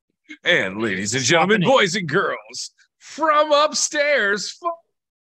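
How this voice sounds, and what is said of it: Stadium announcer-style voice. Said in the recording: “I'm working on my stadium voice.”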